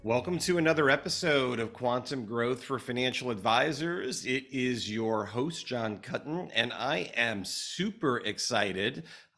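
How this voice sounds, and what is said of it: Hoarse, partly lost voice. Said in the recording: “as you could probably hear, I'm losing my voice a little bit ... I've been cheering in the fan and in the stands, and uh, I'm losing my voice a little bit”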